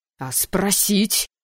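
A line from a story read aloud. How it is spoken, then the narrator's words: Angry exclamation. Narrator (Russian): гневно воскликнул декан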